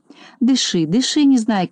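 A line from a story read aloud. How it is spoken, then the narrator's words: Gentle. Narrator (Russian): ласково сказал доктор Пилюлькин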